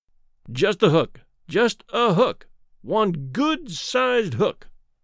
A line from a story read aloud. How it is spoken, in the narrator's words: pleaded